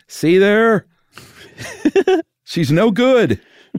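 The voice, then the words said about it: Dave Thomas impression. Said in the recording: “That's a good Dave Thomas impression.”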